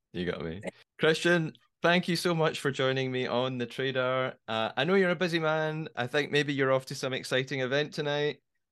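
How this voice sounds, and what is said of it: Scottish accent. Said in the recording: “I haven't got to talk with someone with a Scottish accent in a minute”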